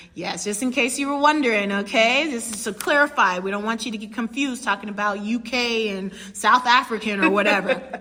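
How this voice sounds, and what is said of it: American Chicago accent. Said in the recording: “You probably hear our accents. I'm from the U.S. of A., Chicago, okay, born and raised.”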